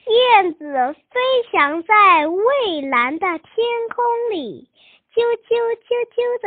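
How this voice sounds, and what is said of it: Usual voice. Nothing is said of it.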